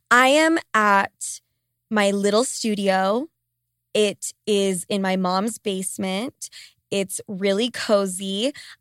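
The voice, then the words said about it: Congested, stuffy-nosed voice. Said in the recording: “I sound congested as fuck ... I will try to keep my coughing to a minimum”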